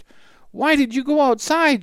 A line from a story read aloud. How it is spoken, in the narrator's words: cried